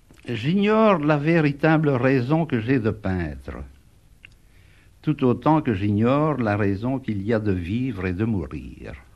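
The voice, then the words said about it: Gravelly, rough accent. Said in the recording (French): “Cette voix et cet accent rocailleux appartiennent à René Magritte”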